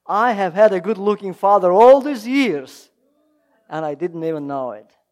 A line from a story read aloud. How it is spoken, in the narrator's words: she exclaimed